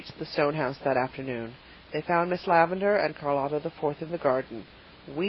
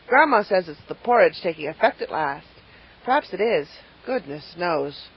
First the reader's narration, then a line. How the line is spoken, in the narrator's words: Paul sighed deeply